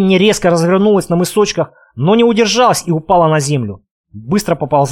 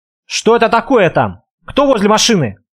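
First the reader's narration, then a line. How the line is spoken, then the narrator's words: Surprised exclamation. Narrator (Russian): с натуральным удивлением воскликнул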